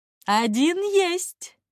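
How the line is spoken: Laughing. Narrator (Russian): рассмеялся Алоис

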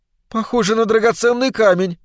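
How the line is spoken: Intrigued exclamation. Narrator (Russian): заметно заинтересовавшись, воскликнула Глэдис

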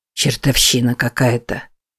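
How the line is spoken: Mutter. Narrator (Russian): пробормотал Уильям

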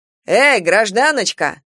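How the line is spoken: Man barking. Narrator (Russian): гаркнул невесть откуда взявшийся мужичок

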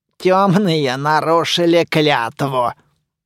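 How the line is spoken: Creaky voice. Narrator (Russian): проскрипела Дуэнья

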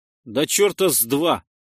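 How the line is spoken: Snorting scoff. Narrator (Russian): хмыкнул я

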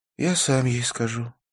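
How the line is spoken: Sad. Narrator (Russian): печально произнес Навин

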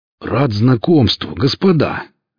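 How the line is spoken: Cheerful exclamation. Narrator (Russian): жизнерадостно воскликнул Велес

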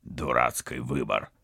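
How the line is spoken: Grumbled. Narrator (Russian): проворчал Вадим

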